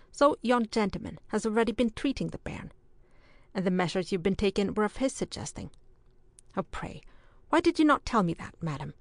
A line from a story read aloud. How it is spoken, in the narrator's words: he observed sharply